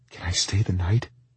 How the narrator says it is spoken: she whispered

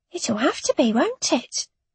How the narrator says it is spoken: Mandy whispered in my ear

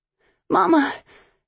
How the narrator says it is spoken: Zoe wheezed, catching her breath

